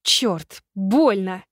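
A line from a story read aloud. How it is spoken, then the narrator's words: Hissing through clenched teeth. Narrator (Russian): шикнула я сквозь зубы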